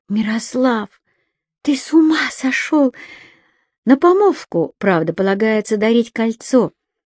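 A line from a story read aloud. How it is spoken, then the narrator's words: Amazed whisper. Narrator (Russian): Изумленно прошептала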